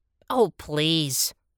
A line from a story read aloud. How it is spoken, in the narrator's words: the penguin scoffed